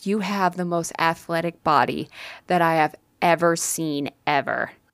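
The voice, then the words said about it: Dreamy, airy voice. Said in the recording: “in a very dreamy voice, ... in a very dreamy, airy voice.”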